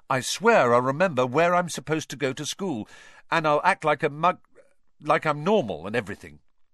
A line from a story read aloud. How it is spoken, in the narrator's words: Harry went on quickly